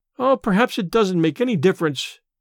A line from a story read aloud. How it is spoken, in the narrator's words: sighed Letty